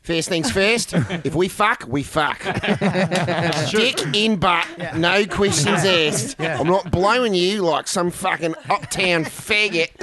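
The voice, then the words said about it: Put-on accent. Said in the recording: “Your accent's gotten better”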